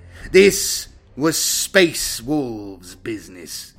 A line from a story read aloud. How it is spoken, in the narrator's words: he snarled